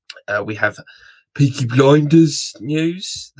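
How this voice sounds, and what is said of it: Bad put-on Birmingham accent. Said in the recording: “That was a really bad impression of Peaky Blinders, the the the, the, the Birmingham accent.”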